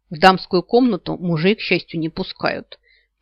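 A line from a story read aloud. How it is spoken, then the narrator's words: Grumbled. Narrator (Russian): пробурчала Савита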